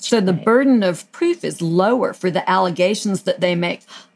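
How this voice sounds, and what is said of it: Southern American accent. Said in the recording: “It's my southern accent.”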